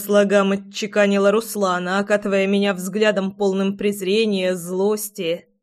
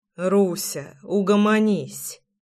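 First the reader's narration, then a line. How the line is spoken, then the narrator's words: Muttered. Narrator (Russian): пробормотал я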